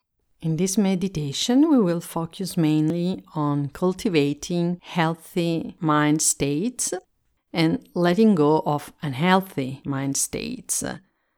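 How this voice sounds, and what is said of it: Italian accent in English. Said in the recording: “I'm Italian and I speak English as a second language... my accent”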